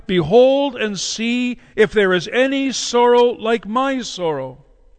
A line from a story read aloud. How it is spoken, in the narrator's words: she called out to those who passed by